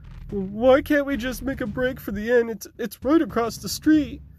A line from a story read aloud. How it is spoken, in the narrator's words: whimpered Finnegan